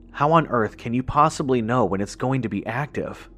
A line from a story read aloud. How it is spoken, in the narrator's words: I asked